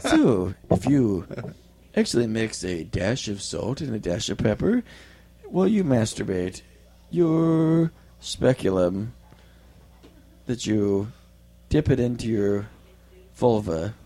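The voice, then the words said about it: Mock NPR radio voice. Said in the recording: “I had to go to my NPR voice.”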